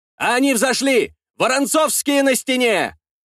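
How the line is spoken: Warriors shouting. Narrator (Russian): закричали мои воины

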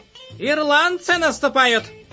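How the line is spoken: Shouting. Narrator (Russian): кричал он

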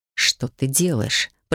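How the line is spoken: Hiss from behind. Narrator (Russian): прошипел сзади художник

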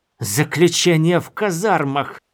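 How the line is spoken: Hissing. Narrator (Russian): зашипела она

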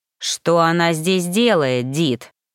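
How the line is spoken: Growled. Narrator (Russian): прорычал

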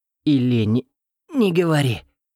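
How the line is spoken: Moaned. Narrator (Russian): простонал я

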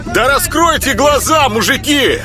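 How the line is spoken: Desperate shout. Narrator (Russian): отчаянно закричал Петька

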